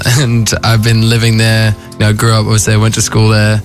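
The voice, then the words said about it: Australian accent. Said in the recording (French): “I feel most Australian. It's my accent”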